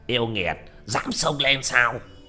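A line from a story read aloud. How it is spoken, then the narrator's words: Taoist shouting loudly. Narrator (Vietnamese): Đạo sĩ râu đen hét lớn một tiếng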